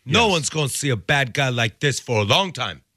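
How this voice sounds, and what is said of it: Bad Scarface impression. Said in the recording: “That was a really bad impression.”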